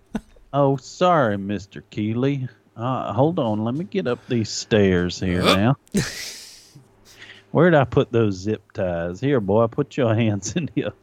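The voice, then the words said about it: Put-on Savannah Southern accent. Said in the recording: “Slipping into that Savannah accent.”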